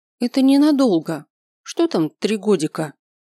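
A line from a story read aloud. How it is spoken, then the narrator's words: Businesslike, trying to sound confident. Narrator (Russian): Деловитым тоном заметил я, стараясь говорить уверенно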